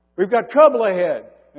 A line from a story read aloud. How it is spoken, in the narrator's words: somebody called out from the front